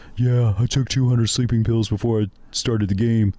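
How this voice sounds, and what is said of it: Imitates another person's voice. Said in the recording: “a pretty good Shaq impression”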